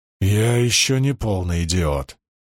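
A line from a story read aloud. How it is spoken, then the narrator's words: Growled. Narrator (Russian): прорычал Перин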